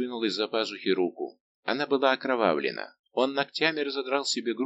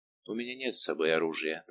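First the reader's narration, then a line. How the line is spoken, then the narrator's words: Muttering. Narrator (Russian): пробормотал Арамис, неприступный и страшный, как тень Дидоны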